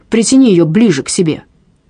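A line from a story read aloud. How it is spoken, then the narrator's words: Low-voiced shout. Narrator (Russian): низким голосом прокричал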